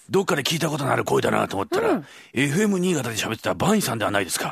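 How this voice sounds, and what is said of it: Strained put-on character voice. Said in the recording (Japanese): “一之輔さんのイメージですけど ... 誰のイメージですか ... 声が枯れるんで普通に戻ります ... だいたいこんな声です”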